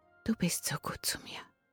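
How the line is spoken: Breathy whisper. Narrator (German): hauchte Esmeralda

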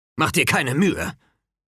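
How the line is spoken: Growl. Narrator (German): knurrte Hedge

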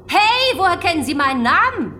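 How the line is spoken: Shrieking. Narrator (German): kreischte Donna

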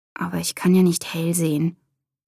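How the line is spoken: Murmuring. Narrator (German): murmelte

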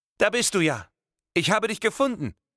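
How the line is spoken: Voice calling out. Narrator (German): rief eine Stimme

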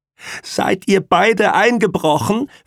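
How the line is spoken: Shrill question. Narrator (German): fragte Pamela mit schriller Stimme

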